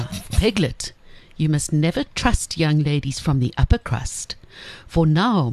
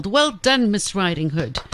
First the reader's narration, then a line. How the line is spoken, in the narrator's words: Pig yelled